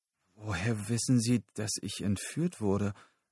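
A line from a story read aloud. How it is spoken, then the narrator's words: Stammering. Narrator (German): stammelte Lyle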